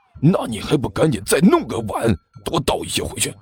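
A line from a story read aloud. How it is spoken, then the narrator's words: Low hushed voice. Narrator (Chinese): 李延都压低声音说道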